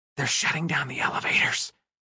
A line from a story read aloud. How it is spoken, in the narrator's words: she whispered